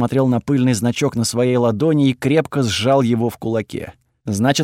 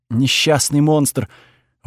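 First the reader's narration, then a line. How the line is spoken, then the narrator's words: Breathed out. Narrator (Russian): выдохнула госпожа Сише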